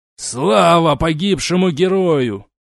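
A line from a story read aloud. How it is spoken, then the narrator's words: Sad, husky voice. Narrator (Russian): печальным, хрипловатым голосом произнес он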